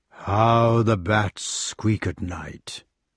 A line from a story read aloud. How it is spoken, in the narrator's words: The giant, remarking in a rumbling tone